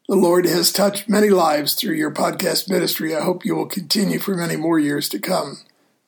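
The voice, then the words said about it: Tired, low-energy voice. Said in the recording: “tell by my voice, I'm running out of steam”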